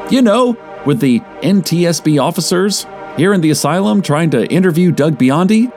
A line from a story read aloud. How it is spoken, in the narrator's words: I asked, perhaps a little loudly for a theater